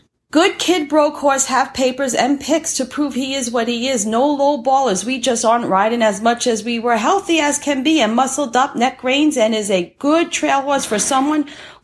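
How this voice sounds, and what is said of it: Woman with a noticeable regional accent. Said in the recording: “I love her accent. ... she's like got to be in what, Brooklyn or some area up in New York. ... Tennessee.”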